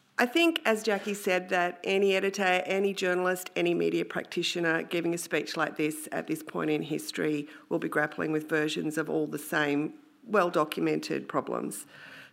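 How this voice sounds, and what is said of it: Voice affected by illness. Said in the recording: “I am battling the lurgy that seems to be taking over Sydney, so please excuse my voice.”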